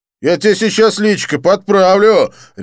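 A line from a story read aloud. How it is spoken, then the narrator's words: Aggressive bark. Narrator (Russian): рявкнул блондин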